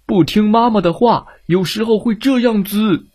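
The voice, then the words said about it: Gruff, loud bear voice. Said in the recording (Chinese): “大熊用他粗大的嗓门冲他喊道”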